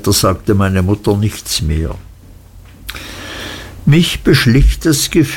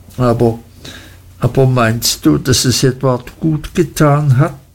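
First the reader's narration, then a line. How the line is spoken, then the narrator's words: Humble stammer. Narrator (German): stammelte meine Mutter demütig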